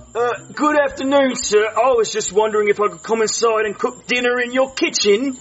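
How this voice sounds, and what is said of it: British accent. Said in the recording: “I love your accent ... where are you from? ... The UK.”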